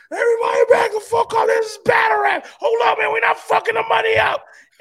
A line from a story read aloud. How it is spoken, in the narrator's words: he screamed out